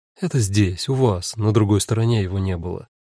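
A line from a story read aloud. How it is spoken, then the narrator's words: Said softly. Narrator (Russian): мягко сказала Кара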